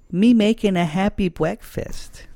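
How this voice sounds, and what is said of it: Put-on character voice for a doll. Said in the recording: “I'm going to do a voice.”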